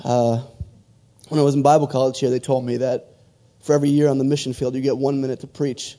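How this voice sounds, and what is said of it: Hoarse, fading voice. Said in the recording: “Excuse my voice, I'm starting to lose it.”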